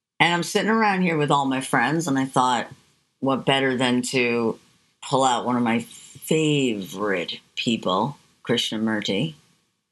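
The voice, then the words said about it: Smooth radio announcer voice. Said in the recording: “entranced by your radio voice”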